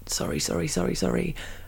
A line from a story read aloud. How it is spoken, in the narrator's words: mumbling